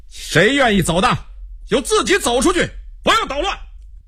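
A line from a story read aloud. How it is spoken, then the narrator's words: Loud angry shout. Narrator (Chinese): 罗明又被激怒了，大声地叫道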